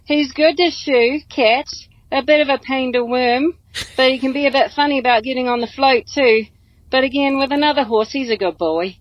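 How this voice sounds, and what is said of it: Put-on Australian accent. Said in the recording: “Australian accents are still the sexiest”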